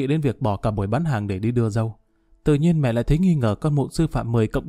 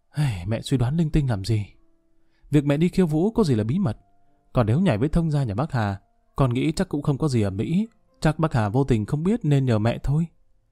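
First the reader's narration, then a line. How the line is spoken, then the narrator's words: Sighing. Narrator (Vietnamese): thở dài nói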